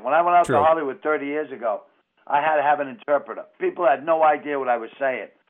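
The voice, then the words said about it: Boston accent. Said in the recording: “My accent. Without a doubt, my accent. ... this is what we sound like in Boston”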